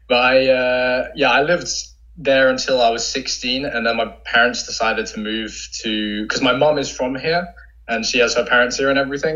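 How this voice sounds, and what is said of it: London English accent. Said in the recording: “I lived in London for most of my life, which is hence the accent.”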